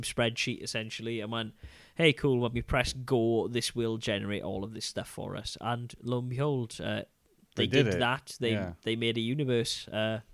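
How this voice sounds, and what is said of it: Subtle Welsh accent, flat and under the weather. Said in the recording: “the dumbing down of my subtle Welsh tones, my lilt is rather flat ... I've had man flu for the last couple of days”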